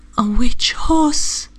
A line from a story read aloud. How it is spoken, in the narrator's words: she whimpered